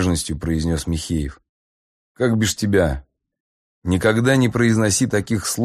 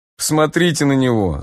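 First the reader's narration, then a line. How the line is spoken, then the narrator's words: Loud guffaw. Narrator (Russian): захохотал Грачик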